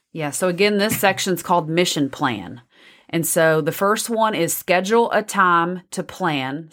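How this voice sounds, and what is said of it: Texas accent. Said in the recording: “you can hear my Texas accent in there ... I love your accent”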